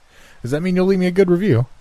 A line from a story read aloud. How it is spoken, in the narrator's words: I chuckled